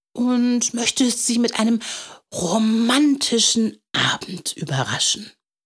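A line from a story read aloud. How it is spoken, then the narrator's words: Whisper. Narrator (German): flüsterte er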